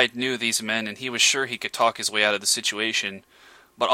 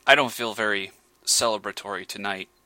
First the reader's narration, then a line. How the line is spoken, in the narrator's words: he replied